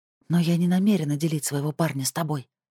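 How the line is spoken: Whisper. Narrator (Russian): прошептала Алла

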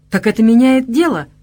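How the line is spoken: Pleased exclaiming. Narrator (Russian): довольно воскликнул я

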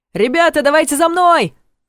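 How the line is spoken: Shouting. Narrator (Russian): крикнул он

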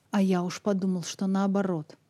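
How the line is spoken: Angry. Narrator (Russian): зло сказал Сэнди

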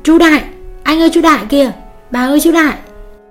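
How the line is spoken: Excited child's cry. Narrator (Vietnamese): Con bé Hành reo lên

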